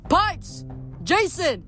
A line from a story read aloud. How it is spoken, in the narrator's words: shouted down